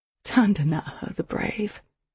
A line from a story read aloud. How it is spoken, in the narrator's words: I whispered, chuckling